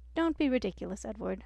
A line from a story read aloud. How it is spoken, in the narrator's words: Marilyn Granger laughed cheerfully